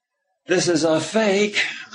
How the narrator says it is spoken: said deliberately loudly

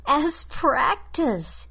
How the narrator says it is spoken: Yu Kim snorts

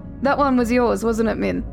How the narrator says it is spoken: Jonathan laughed awkwardly into his plate, rambling at lightning speed

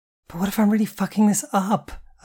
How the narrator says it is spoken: I groaned

